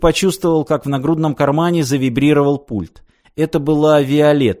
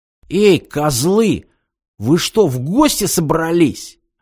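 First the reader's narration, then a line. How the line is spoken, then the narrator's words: Indignant exclamation, vagrant. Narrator (Russian): возмущенно воскликнул бомж, увидев, сколь скудная добыча ему досталась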